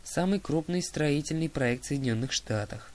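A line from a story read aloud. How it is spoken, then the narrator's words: Sigh. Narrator (Russian): вздохнул Гровер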